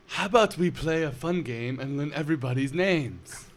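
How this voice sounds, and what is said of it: Nasal European character voice. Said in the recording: “Lars, a European bodybuilder with a severely deviated septum ... another Lars impersonation”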